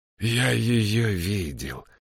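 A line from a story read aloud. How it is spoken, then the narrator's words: Hoarse with ringing notes. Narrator (Russian): прохрипел Прайрот, и в его голосе появились звенящие нотки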